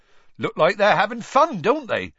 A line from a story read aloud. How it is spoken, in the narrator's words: Hagrid said happily